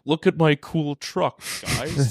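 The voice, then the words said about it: Elon Musk impression. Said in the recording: “Great Elon impression.”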